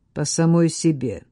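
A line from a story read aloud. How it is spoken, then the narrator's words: Cold. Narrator (Russian): ответила Катриона столь же холодно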